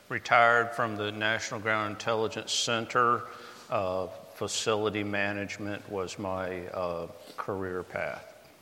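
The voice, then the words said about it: North Carolina Southern US accent. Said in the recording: “from North Carolina, the East Coast. Probably my accent gives it away.”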